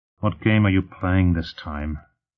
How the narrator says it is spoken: Lutt muttered

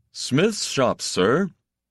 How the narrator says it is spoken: the guard said in his loud, toneless voice

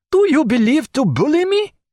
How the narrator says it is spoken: cried Pontécanet

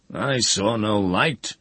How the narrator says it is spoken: the master roared

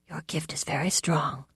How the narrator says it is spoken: Gry said in her husky voice

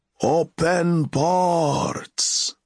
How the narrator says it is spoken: the master's roar was

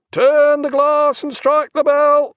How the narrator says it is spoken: cried the quartermaster at the con

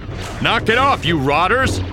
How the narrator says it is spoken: he yelled

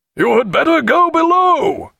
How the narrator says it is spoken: he shouted to Stephen

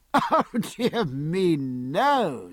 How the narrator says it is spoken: said Palmer, laughing

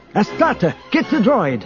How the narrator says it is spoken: Isolde shouted

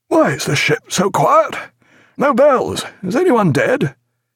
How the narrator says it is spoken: he asked, gasping

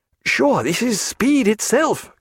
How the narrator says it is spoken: cried Stephen, the foam flying past his face

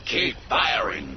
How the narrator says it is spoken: Grievous roared

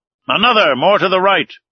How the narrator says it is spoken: cried the commander

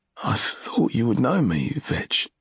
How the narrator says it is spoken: His voice shook a little as he said

